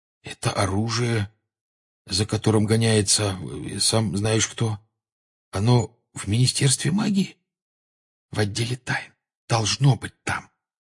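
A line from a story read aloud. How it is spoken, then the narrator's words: Whispering. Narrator (Russian): шепотом ответил Гарри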